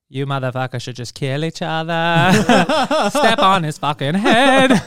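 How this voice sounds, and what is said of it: Imitates another person's voice. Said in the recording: “your Drake impersonation.”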